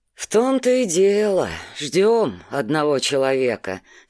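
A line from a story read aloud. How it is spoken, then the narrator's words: Heavy sigh. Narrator (Russian): тяжело вздохнул Александр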